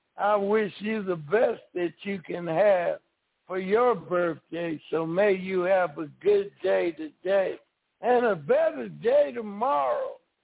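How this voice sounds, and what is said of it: Hoarse voice. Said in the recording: “I'm kind of hoarse. I can't really sing today”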